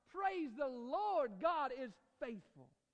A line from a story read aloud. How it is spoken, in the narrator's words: shout